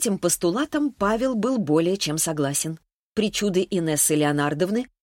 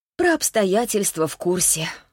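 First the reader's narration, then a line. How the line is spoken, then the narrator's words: Sighing wife. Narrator (Russian): вздохнула жена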